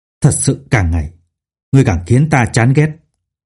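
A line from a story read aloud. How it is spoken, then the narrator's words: Harsh, seething voice. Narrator (Vietnamese): hắn gằn giọng nói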